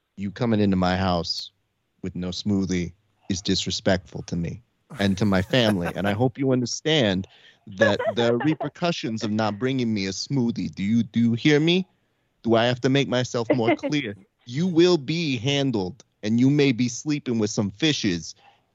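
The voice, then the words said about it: East Coast mobster accent, Scorsese-style. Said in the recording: “every East Coast accent. You start thinking of them in a Scorsese film”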